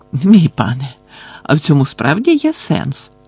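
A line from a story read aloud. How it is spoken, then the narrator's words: Relieved sigh. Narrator (Ukrainian): полегшено зітхнув Червохвіст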